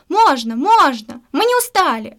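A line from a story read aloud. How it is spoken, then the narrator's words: Audience shouting. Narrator (Russian): закричали зрители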